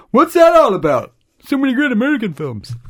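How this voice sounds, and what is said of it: Imitates another person's voice. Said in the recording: “That's my impersonation. ... That was actually not bad.”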